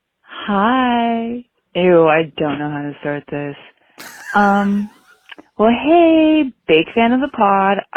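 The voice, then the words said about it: Polite customer service voice. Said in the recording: “doing my customer service voice”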